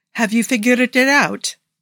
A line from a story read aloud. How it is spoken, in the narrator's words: Nikki asked